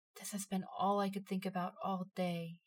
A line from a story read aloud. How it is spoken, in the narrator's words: he whispered